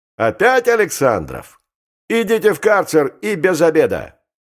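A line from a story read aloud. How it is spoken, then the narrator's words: Angry shout from above. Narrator (Russian): Он же крикнул сверху злобно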